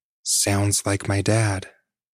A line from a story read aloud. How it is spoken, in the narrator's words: she calmly said